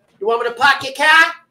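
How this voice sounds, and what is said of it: Fake Boston accent. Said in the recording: “With the stupid Boston accent. ... It's so fake.”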